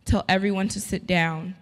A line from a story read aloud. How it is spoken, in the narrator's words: Jesus said